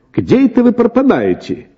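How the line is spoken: Shouted. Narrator (Russian): крикнул он

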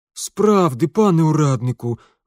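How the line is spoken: Peasant pleading. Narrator (Russian): взмолился мужик

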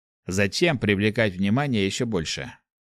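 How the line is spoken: Scoffing snort. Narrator (Russian): хмыкнул воин

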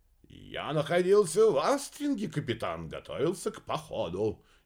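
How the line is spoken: Brisk, cheerful report. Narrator (Russian): неожиданно бодро отрапортовал Квадриго

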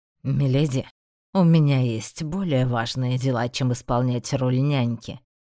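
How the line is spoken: Rather rude statement. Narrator (Russian): довольно грубо сообщил

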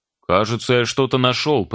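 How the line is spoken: Shouted. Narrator (Russian): прокричал Серега через 5 часов поисков

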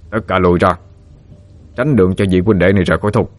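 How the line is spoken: Hurried loud bark. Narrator (Vietnamese): Bầu đầu vội vã quát lớn

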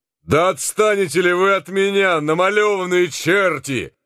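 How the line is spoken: Shouting. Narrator (Russian): кричал Генрих Марч

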